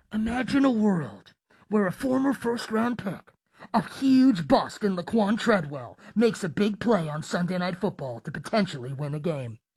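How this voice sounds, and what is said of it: Movie trailer narrator voice. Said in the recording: “I'll do my best. I'm not really the movie trailer voice type of guy”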